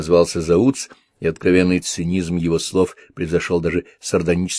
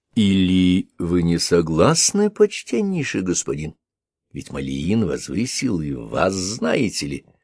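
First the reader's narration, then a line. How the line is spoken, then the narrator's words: Very quiet question. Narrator (Russian): Шава очень тихо спросил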